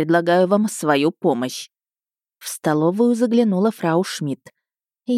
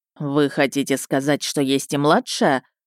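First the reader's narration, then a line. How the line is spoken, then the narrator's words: Even tone. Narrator (Russian): ровным тоном уточнил Ищейка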